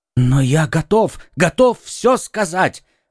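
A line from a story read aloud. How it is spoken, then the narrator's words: Exclamation. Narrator (Russian): воскликнул Бонасье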